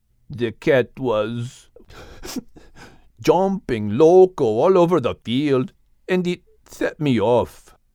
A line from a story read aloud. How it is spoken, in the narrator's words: whimpered the bull in a deep voice